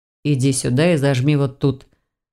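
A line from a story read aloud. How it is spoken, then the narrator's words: Casual command. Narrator (Russian): будничным тоном приказал он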